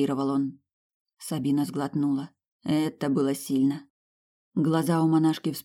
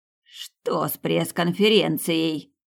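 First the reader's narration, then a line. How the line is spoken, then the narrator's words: Angry hiss. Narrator (Russian): злобно прошипела она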